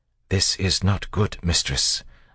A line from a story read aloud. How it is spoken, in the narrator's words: Sazed said in a low tone